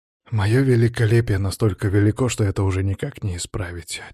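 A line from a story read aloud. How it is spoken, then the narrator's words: Heavy sigh. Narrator (Russian): тяжко вздохнул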